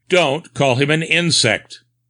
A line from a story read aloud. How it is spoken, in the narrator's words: Nutt sharply reprimanded me